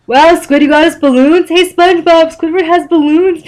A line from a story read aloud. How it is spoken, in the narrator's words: Patrick exclaimed, jumping up and down in excitement